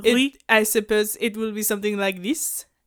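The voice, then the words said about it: Put-on French accent. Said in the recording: “whatever your version of French is... a French accent”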